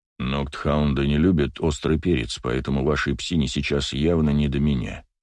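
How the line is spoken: Calm leader's voice. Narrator (Russian): спокойно произнес вожак

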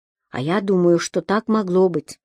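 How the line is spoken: Calm and dignified. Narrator (Russian): спокойно и с каким-то особым чувством достоинства сказал Алешка

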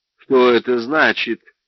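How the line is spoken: Incredulous question. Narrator (Russian): спросил Джордж, не в состоянии поверить, что Брандт может смеяться

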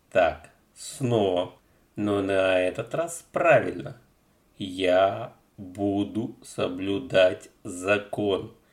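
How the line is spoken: Slow careful male chorus. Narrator (Russian): медленно и тщательно выговорили 3 парней

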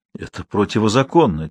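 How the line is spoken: Quiet. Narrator (Russian): тихо произнес Калаус

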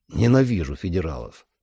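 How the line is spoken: Cold. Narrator (Russian): холодно сказал Сэм

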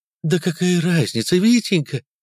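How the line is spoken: Woman's exclamation. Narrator (Russian): воскликнула женщина

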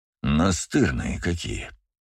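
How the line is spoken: Grumble. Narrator (Russian): проворчал Джейсон

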